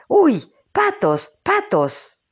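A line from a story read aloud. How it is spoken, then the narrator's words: Exclaiming. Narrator (Spanish): exclamaba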